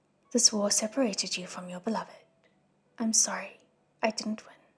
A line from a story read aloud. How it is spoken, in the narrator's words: He said quietly